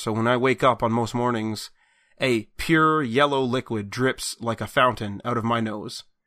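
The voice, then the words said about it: Sick, congested voice. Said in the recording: “I'm still dying internally. I don't know if you can tell from my voice. It's getting better ... I'm hacking up a lot of shit”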